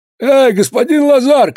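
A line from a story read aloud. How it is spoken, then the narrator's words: Shout. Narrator (Russian): крикнул он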